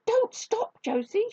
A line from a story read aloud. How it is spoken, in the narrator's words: shouted Grandma Jump